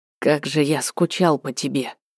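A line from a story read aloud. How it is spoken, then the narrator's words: Whispered. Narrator (Russian): прошептал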